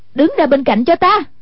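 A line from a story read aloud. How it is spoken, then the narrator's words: Exasperated shout. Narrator (Vietnamese): Hoàng Dung nghe thấy không chịu nổi, quát lên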